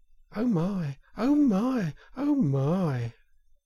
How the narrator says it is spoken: It was so very beautiful that the mole could only gasp

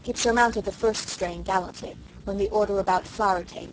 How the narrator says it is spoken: Susan said quite cheerfully

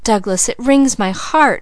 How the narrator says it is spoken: cried Leslie

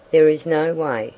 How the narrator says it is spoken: he said

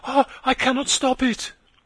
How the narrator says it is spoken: she cried

